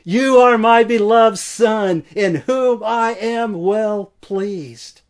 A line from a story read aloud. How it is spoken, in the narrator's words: the Father's voice thundered